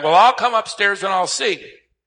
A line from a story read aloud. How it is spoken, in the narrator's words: The 94-year-old was downstairs in the kitchen, and she hollered back